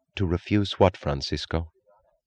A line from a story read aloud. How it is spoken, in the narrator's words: She asked evenly